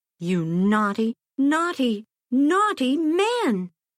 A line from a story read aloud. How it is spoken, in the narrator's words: she cried